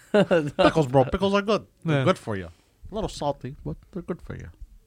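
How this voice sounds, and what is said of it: Put-on dumb-sounding voice. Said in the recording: “dumb voice? ... my dumb alter ego”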